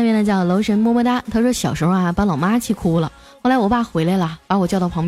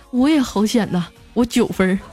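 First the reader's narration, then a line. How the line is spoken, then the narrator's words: Long sigh. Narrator (Chinese): 后面一个哥们也悠悠的叹息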